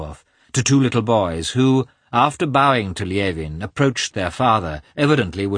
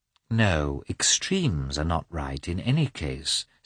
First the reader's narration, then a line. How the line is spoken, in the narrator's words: said Natalie, quietly